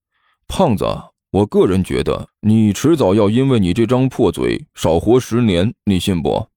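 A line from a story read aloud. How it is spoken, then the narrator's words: Soft sigh. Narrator (Chinese): 彭阳轻轻叹了口气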